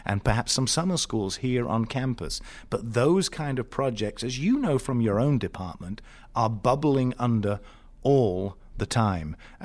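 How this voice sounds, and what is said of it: Speaker with a noticeable accent. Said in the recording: “with my accent and my background”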